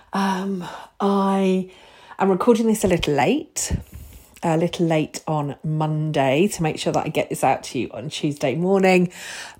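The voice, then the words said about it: Slightly strained, delicate voice. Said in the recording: “My voice is a little bit delicate after power up last week”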